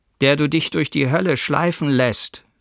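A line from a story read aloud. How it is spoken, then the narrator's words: Calling out. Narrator (German): rief er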